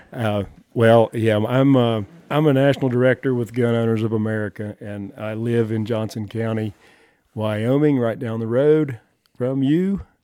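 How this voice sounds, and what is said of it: Southern US accent. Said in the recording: “you ain't from around here ... from my accent, I was born and raised in the South”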